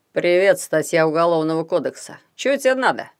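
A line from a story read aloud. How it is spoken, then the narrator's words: Grumbled. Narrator (Russian): проворчал Хаврон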